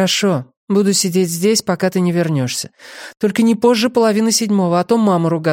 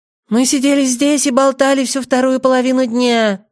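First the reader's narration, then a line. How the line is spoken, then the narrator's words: Rapid doll-like voice. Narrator (Russian): протараторила Нэнси кукольным голосом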